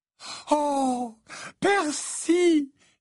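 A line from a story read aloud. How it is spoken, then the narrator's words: Exclaiming. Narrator (French): s'exclama Mrs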